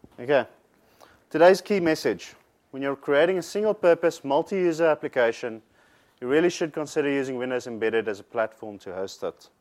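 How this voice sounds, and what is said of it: Speaks with a noticeable foreign accent. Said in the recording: “mocked about my accent by Kiwis and South Africans”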